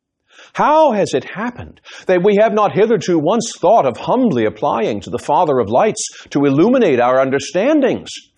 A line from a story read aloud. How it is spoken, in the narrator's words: Franklin pleaded